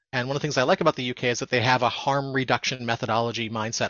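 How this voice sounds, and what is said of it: American accent. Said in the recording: “as you can probably tell from my accent,... I'm from America”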